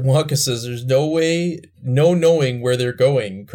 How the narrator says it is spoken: cried Mr

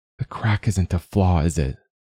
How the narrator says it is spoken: Flo laughed

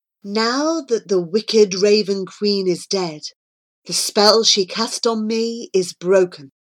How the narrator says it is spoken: said the woman

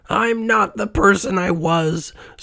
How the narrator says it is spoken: Scrooge cried

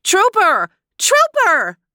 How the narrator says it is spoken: they cried

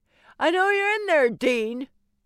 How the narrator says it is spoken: a man was shouting

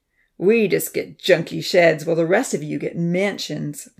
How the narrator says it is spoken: Ponzi grumbled

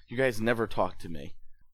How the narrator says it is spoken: mutter to himself

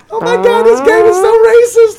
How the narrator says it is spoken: a giggling Paul go

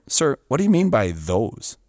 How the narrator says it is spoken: I kindly inquired

